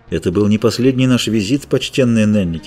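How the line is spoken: Plain. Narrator (Russian): сказал

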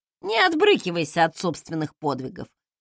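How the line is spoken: Smirking. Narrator (Russian): хмыкнул Фостен

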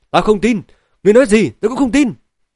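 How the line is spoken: Loud shout. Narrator (Vietnamese): Dịch Vi Xuân hét lớn

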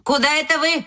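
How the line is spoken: Wolf grandmother shouting after. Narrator (Russian): крикнула вдогонку бабушка-волк

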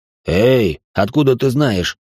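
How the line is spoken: Exclamation. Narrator (Russian): воскликнул Лямбда

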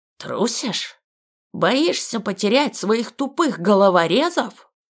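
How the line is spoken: Hissed. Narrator (Russian): прошипел наставник

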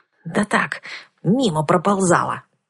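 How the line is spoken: Snapped. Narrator (Russian): огрызнулась я

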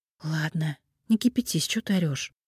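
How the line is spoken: Muttered. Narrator (Russian): Чернова с грустью пробормотала

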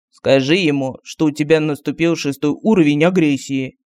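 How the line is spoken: Serious advising voice. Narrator (Russian): Серьезным голосом посоветовал медальон

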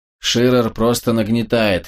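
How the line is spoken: Scoffing snort. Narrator (Russian): хмыкнул

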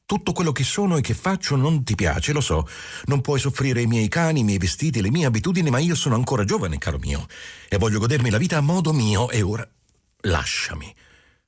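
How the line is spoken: Exclaiming. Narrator (Italian): Ella esclamò

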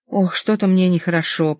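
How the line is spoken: Whisper. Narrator (Russian): прошептала Линда

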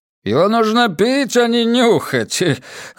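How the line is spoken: Chuckling. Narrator (Russian): хохотнул бармен

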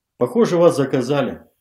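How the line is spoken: Plain. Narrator (Russian): сказал Зеленцов

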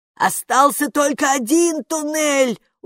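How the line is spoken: Reproachful shout. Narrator (Russian): укоризненно прокричала привратница

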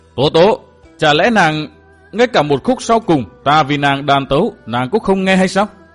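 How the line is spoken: Flustered, loud. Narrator (Vietnamese): Trịnh Vô Tâm cuống lên, lớn tiếng nói

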